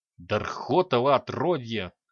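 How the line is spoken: Angry hiss. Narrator (Russian): зло прошипел Храд

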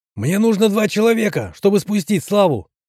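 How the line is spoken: Loud. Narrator (Russian): громко сказал Герман

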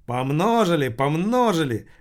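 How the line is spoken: Exclaiming host. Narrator (Russian): воскликнул сынок Лассаля, ведущий сегодняшнего вечера

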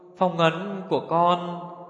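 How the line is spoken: Trembling voice. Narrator (Vietnamese): Liệt Minh Kính nói giọng run run

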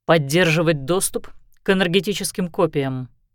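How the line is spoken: Plain. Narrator (Russian): ответил Лещинский

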